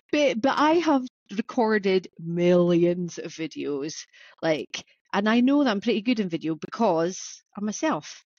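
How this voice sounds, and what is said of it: Scottish accent. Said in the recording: “I've got a funny Scottish accent.”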